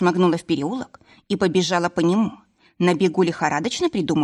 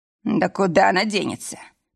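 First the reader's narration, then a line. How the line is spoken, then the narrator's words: Through gritted teeth. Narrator (Russian): Процедил сквозь зубы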